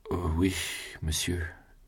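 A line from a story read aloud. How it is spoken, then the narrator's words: Weak voice. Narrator (French): dit Julien d'une voix affaiblie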